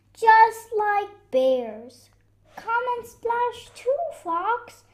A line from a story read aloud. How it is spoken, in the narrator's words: they shouted